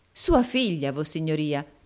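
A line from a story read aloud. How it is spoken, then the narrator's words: Exclaiming. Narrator (Italian): esclamò il baronetto Mulberry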